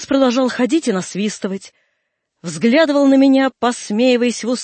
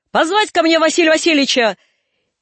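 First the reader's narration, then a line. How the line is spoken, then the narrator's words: Sudden shout. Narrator (Russian): Вдруг он крикнул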